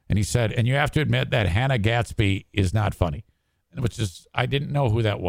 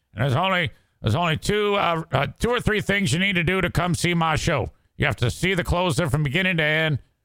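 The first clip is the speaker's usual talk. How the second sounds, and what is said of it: Imitates another person's voice. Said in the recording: “doing my Dave Chappelle impression.”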